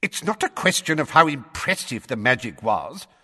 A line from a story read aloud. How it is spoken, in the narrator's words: said Fudge in a testy voice